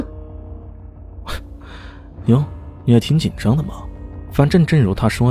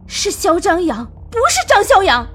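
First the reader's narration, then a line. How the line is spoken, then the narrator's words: Angry. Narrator (Chinese): 宇文婷果然恼怒的说道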